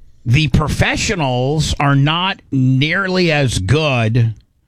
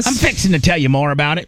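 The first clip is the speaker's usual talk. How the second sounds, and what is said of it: Put-on white trash accent. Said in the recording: “my white trash accent”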